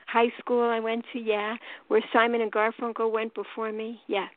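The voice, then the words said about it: New York accent. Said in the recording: “I'm from New York, as you could tell from my accent.”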